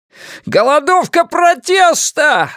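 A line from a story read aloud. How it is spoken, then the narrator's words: Yelled. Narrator (Russian): завопил он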